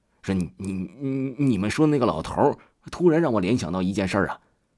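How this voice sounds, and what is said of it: Quiet stammering voice. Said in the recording (Chinese): “他小声的说”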